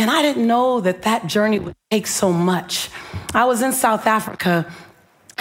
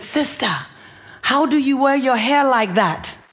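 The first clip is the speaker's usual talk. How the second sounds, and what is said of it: Put-on African accent. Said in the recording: “That's my African accent.”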